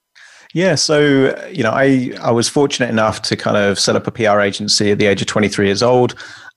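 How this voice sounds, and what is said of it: Speaks with a noticeable accent. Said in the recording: “I love the accent.”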